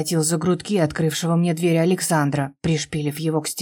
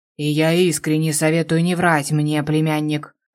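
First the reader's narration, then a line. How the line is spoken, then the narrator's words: Menacing growl. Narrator (Russian): Рыкнул многообещающе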